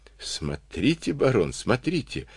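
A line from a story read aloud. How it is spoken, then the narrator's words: Admiring breathless babble. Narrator (Russian): восхищенно пролепетал Карабанов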